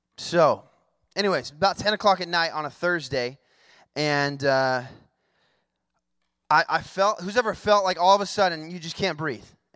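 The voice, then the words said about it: Hoarse, croaky recovering voice. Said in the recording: “I sound kind of like a frog right now, it's because I lost my voice last week, but it's coming back ... he sounds funky ... if I cough, I'm not sick”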